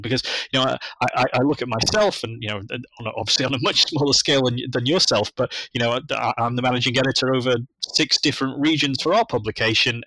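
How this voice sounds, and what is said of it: British accent. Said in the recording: “that's fine for me with a British voice in the UK”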